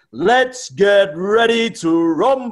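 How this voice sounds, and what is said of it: Loud, drawn-out announcer shout. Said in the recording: “you dragged on a little bit longer with the rumble there, but you've obviously got a good set of lungs on you”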